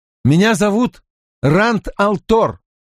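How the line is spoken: Snapping retort. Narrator (Russian): огрызнулся он

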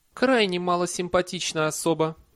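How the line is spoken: Cooing. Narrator (Russian): проворковала Летиция

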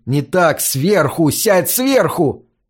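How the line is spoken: Shouting. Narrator (Russian): Я крикнул Курту

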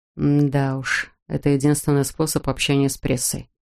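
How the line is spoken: Gloomy snort. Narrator (Russian): мрачно хмыкнул Пол

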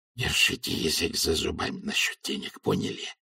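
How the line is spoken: Hissed. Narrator (Russian): прошипел асфальт

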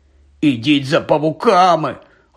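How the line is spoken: Barely audible wheeze. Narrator (Ukrainian): ледь чутно хрипів він

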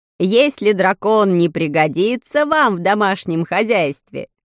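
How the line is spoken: Laughing. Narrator (Russian): рассмеялся Ружеро

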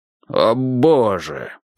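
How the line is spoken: Groaning. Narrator (Russian): простонал он

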